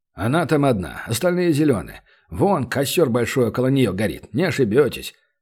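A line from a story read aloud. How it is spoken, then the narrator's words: Stern warrior grumbling. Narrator (Russian): проворчал суровый воин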